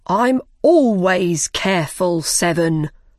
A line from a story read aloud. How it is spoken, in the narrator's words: answered Five